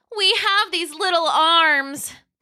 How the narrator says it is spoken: they cried

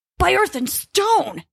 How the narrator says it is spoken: he yelled, struggling to be heard over the wind

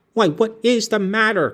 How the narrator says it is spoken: cried I

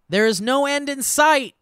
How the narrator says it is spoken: He yells out

